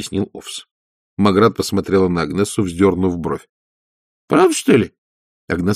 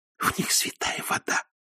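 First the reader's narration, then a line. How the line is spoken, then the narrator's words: Whisper. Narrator (Russian): прошептала Агнесса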